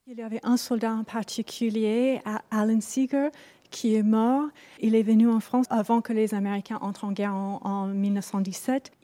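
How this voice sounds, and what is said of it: Wonderful foreign accent in French. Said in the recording (French): “avec un accent merveilleux”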